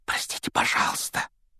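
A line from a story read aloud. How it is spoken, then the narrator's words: Whisper. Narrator (Russian): прошептал Гарри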